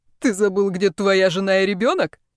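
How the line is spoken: Mocking laughter. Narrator (Russian): Теперь Брайан смеялся над другом

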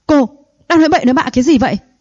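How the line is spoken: Furious old man shouting. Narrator (Vietnamese): Ông cụ Thẩm tức giận quát lên, suýt chút nữa thì ngất xỉu

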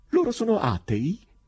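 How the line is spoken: Curious question, little cry. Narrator (Italian): Il forestiero chiese, dopo aver gettato persino un gridolino di curiosità

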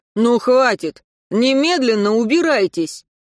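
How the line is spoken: Shout. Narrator (Russian): окрика

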